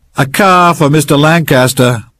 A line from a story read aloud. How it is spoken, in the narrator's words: Winner shouted